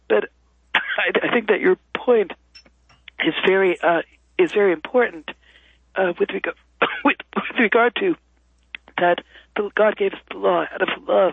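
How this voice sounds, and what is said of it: Hoarse voice with coughing. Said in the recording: “I'm getting over some laryngitis, so I have a bit of a cough ... I'm having a coughing fit.”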